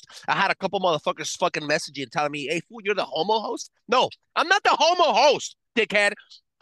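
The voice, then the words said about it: Thick accent. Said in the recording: “I speak four languages. That's why I have a thick accent”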